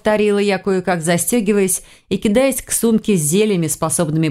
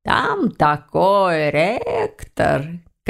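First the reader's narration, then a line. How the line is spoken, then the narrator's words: Purring. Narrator (Russian): мурлыкнула она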